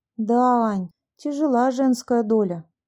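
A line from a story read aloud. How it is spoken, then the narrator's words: Sighed. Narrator (Russian): вздохнула Люся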